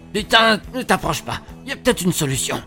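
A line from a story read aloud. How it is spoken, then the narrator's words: Stammering. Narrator (French): bégaye Darrell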